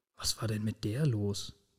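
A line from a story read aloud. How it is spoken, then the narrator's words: Quiet mumbling to self. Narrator (German): murmelte er leise vor sich hin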